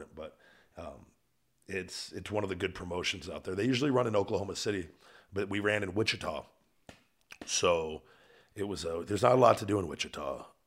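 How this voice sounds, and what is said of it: Rough, worn-out voice. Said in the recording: “My voice is shit now because screaming like a dickhead”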